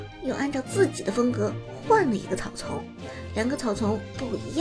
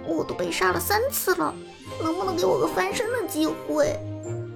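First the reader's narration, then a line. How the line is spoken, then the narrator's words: Laughing. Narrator (Chinese): 陈烟哈哈一笑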